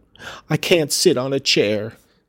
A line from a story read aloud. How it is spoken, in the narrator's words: sobbed the boy